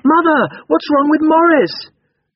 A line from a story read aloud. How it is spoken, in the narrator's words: The girls ran out, exclaiming